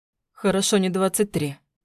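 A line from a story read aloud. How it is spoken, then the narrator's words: Smirking snort. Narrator (Russian): хмыкнул Власов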